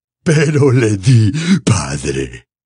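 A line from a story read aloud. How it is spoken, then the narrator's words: Laughing while speaking. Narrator (Spanish): dijo Morfin, riendo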